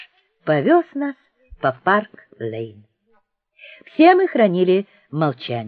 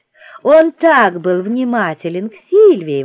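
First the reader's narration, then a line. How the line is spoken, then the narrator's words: Exclaiming. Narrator (Russian): воскликнула Филлис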